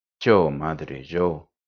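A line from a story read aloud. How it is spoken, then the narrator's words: Weak murmur of sick girl. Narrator (Spanish): murmuró en voz queda la joven enferma, que ya había vuelto en sí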